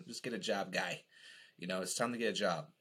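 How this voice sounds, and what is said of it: Put-on thick Boston accent. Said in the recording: “I always kind of like think of it in that really thick New England Boston accent.”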